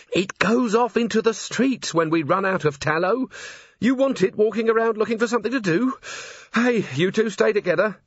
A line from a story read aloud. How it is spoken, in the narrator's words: Carrie added urgently